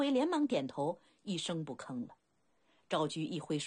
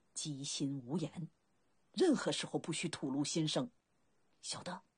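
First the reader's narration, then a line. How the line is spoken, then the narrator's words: Low scolding. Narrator (Chinese): 昭居一声呵斥，压低了声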